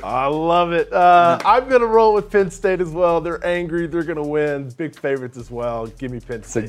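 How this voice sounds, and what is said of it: Good impression of a co-host. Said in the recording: “It's a good Barton impression.”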